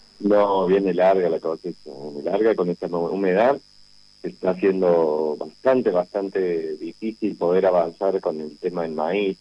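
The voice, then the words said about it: Hoarse, deepened voice. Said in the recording (Spanish): “todo con la garganta medio jodida ... estamos todos con voz de hombre”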